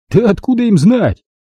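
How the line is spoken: Snapping. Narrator (Russian): огрызнулся Физи

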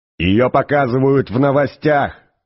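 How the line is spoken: Shouting from another room. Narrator (Russian): крикнул из своей спальни Артур

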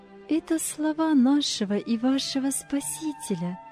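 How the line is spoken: Warm, smiling. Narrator (Russian): добавила она, ласково улыбаясь

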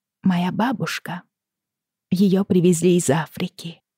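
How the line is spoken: Quiet. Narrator (Russian): тихо сказала Федра

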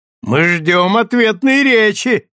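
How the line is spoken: Group shouting. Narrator (Russian): кричали Тантина, Миньона, Дэй, стуча вилками и ножами по тарелкам

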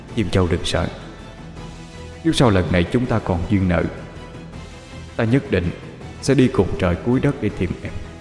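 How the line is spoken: Soft, tender murmur. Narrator (Vietnamese): hắn chỉ đành đặt lên trán nàng một nụ hôn, rồi khẽ nói

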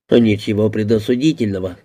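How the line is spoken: Plain. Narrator (Russian): сказал клерк

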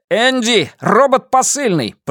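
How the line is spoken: Shouted. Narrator (Russian): прокричал Эдди

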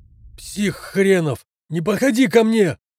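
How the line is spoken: Male nurse shouting. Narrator (Russian): выкрикнул медбрат

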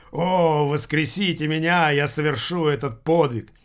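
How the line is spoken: Frightening shout. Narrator (Russian): покойник страшным голосом кричал

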